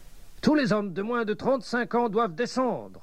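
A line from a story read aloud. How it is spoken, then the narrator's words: Shout. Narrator (French): cria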